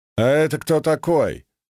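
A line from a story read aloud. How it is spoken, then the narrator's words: Demanding tone. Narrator (Russian): требовательным тоном спросил Исаврик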